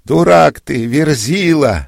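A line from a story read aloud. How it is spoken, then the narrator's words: Woman shouting. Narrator (Russian): закричала дьяконица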